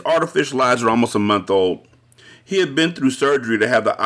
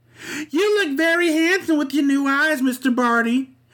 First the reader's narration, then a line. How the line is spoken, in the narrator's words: Pixie Lee squeaked